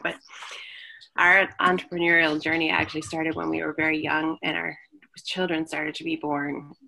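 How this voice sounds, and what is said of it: Strained, struggling voice. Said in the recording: “my voice is struggling a little bit”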